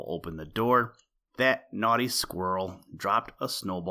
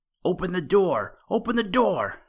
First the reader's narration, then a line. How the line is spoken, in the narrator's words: shouted the little rabbit